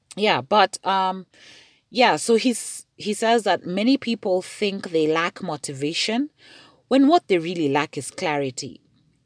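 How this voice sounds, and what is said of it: Voice acting up, strained. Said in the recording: “it's not COVID. For some reason, I don't know why my voice is just acting up.”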